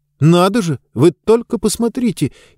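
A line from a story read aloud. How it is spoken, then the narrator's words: Frightened exclamation. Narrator (Russian): испуганно воскликнул Хэмми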